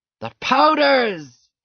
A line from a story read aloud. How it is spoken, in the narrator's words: He shouted